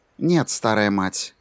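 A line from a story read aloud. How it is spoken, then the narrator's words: Even-voiced reply. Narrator (Russian): ровным голосом ответила Сьюзен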